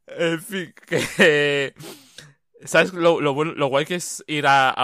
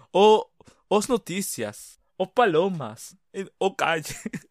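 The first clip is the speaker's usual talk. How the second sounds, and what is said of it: Spanish spoken with mock Portuguese accent. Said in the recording (Spanish): “decir cualquier cosa en español, pero con acento portugués”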